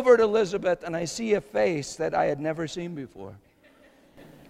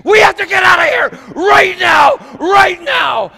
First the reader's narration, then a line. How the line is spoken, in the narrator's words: Elizabeth started screaming